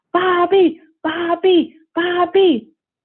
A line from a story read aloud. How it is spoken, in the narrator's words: The class shouts, the class starts to chant